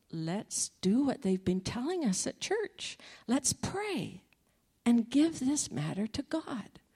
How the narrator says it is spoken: calmly said

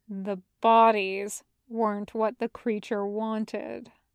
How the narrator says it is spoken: Zhang Zheng murmurs slowly

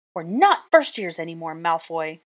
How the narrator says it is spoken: I snapped

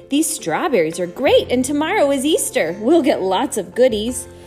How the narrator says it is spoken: Gwen exclaimed

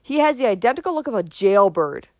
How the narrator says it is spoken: snapped Uncle Benjamin

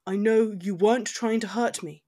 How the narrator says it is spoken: he said, his voice even

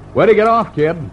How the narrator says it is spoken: He raised his voice above the roar of the bus and said

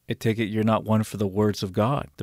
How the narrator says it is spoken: the preacher says

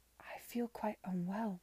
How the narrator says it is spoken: she managed to say again, though not above a whisper

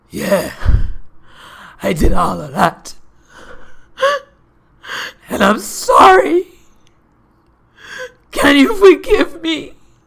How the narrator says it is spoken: at the very tail end, as he's taking in big gasp, he says

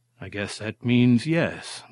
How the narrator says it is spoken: Martin sighed, resigning himself to the situation

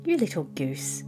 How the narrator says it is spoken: said Katy impatiently

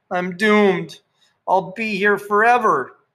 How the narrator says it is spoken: Sandra cried

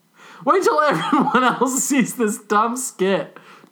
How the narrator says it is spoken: Darcy giggled

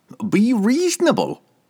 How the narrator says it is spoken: Cobble whined back at her

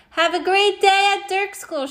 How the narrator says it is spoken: shouted Morgan Brocklebank

